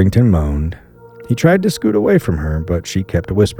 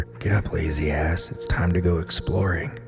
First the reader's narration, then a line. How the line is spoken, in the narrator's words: whispered in his ear